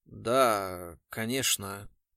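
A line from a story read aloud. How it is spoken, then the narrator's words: Uncertain mumble. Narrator (Russian): неуверенно пробормотал Бардин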